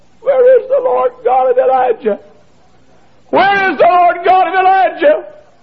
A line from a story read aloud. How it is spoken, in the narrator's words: I prayed and I cried